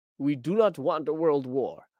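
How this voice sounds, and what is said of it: Bad put-on French accent. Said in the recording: “that was a terrible French accent.”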